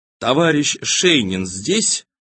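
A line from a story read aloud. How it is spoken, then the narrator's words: Mechanical, lifeless voice. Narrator (Russian): Один из свидетелей немедленно заговорил техническим, неживым голосом, словно кто-то говорил за него по проводам, словно включили запись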